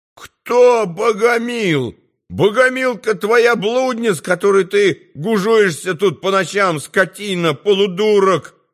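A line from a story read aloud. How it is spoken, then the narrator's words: Angry howling cook. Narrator (Russian): взвыл повар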